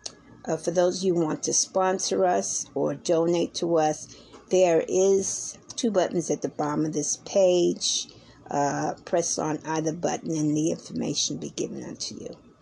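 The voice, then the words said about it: Tired-sounding voice. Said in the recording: “as you can hear in my voice, I'm a little um, tired.”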